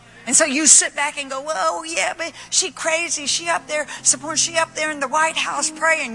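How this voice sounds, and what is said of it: Put-on dialect. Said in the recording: “what's with the dialect? ... This woman's almost whiter than me”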